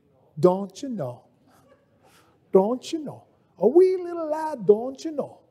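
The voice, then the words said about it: Put-on Scottish accent. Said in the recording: “I don't know why I go to a Scottish accent”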